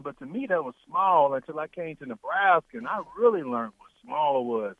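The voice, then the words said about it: Southern US accent. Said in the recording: “my roots, my accent is always the South”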